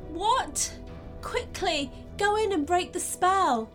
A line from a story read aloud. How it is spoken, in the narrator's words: pleaded Mia